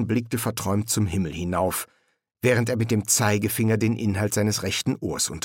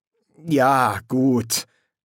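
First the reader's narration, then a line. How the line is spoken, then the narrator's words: Soft groan. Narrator (German): Adam stöhnte leise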